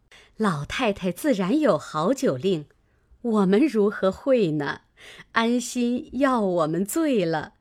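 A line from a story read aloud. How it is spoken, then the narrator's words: Laughing, several voices. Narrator (Chinese): 薛姨妈等笑道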